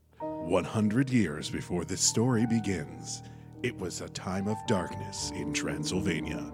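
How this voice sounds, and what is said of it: Dramatic movie narrator voice. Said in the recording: “I'm going to do my movie voice.”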